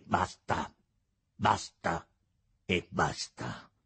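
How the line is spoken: Prince shouting curtly. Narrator (Italian): gridò seccamente il principe

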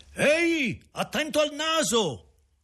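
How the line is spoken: Shouted. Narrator (Italian): qualcuno gridare

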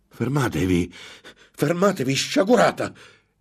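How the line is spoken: Exclaimed. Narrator (Italian): esclamò Ambrosio

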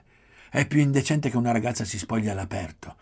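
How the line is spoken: Old woman shouting. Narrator (Italian): gridò la vecchia

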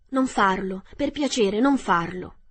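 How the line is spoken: Pleading. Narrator (Italian): supplicò l'uomo di latta

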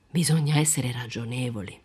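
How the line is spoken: Sighing in conclusion. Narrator (Italian): sospiravamo di conclusione

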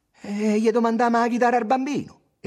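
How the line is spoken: Optimistic exclamation. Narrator (Italian): esclamò ottimista Tommaso

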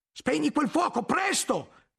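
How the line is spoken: Shouted. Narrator (Italian): gridò Guglielmo

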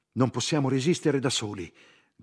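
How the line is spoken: Group shouting. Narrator (Italian): gridavano

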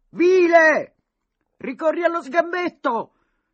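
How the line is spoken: Boys shouting in protest. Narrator (Italian): i ragazzi delle fortezze, che seguivano ansioso il duello, protestarono urlando

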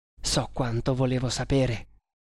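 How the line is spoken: Murmur. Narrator (Italian): mormorò

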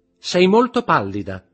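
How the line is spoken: Shouted. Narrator (Italian): gridò Eugénie

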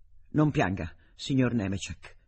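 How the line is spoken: Plain. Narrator (Italian): disse

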